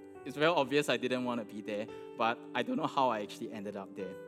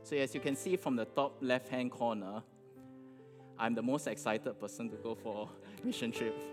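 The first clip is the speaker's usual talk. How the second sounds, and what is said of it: Sarcastic tone. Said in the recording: “I'm just kidding. I'm being sarcastic.”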